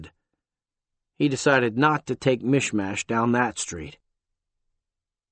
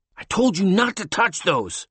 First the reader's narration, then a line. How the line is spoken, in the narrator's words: Tom snapped in annoyance